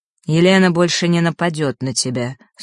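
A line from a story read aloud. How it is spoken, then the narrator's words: Dry. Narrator (Russian): сухо произнес он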